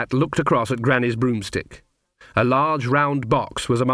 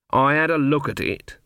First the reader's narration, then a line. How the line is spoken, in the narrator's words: said Granny coldly